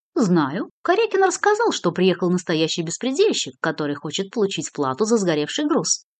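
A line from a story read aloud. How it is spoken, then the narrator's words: Calm. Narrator (Russian): спокойно произнес незнакомец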